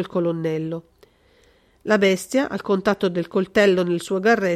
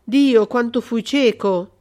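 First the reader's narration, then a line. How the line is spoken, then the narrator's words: Colonel's exclamation. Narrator (Italian): esclamò il colonnello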